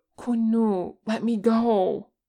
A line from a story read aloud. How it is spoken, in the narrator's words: Pete begged